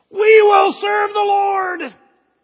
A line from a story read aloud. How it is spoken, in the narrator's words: for a second time, 2 million people shout out